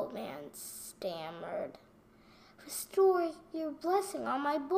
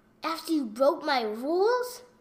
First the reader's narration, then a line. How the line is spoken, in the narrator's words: Brother Coin roared